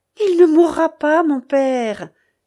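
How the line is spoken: Exclamation. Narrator (French): s'écria Rebecca

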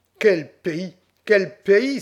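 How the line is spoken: Exclaimed. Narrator (French): s'écria enfin

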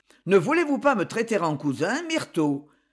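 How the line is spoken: Reproachful tone. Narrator (French): dit-il d'un ton de reproche

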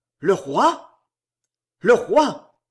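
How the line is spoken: Exclaiming. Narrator (French): s'écria Valvert

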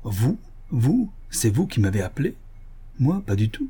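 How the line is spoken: Protesting, cracked voice. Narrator (French): protesta Varin d'une voix cassée, qui me rappela celle de son frère

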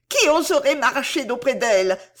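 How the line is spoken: Exclaimed. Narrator (French): s'écria-t-elle

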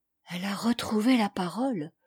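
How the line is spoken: Murmured. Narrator (French): murmura Dame Marthe

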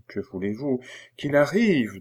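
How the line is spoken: Queen asking, pleading. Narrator (French): demanda la reine d'un air suppliant

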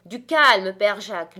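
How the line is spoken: Shouting. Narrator (French): lui crie Rouletabille

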